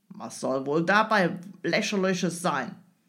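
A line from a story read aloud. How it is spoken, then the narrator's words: Grim growl. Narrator (German): knurrte der Engländer immer noch grimmig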